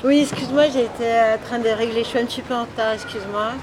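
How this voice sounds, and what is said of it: Accent that doesn't sound French. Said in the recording (French): “t'as un accent pas très français ... on pense que je suis d'ailleurs”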